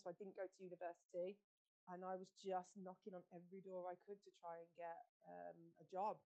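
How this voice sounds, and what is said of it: Birmingham English accent. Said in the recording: “I'm originally from Birmingham. You can probably tell from my accent.”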